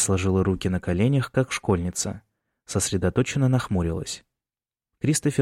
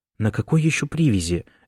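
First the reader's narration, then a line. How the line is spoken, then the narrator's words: Sigh. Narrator (Russian): Эмма вздохнула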